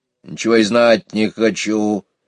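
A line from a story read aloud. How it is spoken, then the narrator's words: Grumbling hedgehog. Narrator (Russian): заворчал ежик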